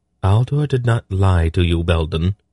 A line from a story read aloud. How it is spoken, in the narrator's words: she replied calmly